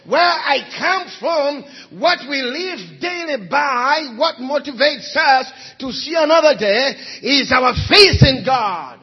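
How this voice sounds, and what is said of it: Ugandan English accent. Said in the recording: “You can tell by my accent this morning... I'm from Uganda. I'm from Africa.”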